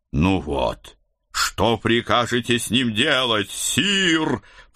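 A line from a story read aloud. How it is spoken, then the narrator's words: Growled while giving chase. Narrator (Russian): прорычал Седрик, пускаясь в погоню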